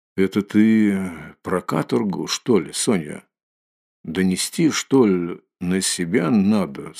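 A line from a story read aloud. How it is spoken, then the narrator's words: Gloomy question. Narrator (Russian): спросил он мрачно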